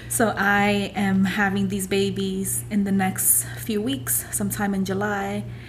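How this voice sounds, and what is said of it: Out of breath. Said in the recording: “out of breath”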